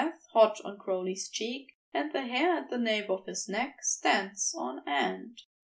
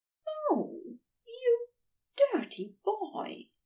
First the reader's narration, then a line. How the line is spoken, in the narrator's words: Aziraphale breathes directly into Crowley's ear